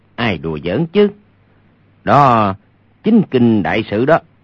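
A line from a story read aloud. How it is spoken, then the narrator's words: Low laughing voice. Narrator (Vietnamese): Hoàng Nhan Khang hạ giọng cười nói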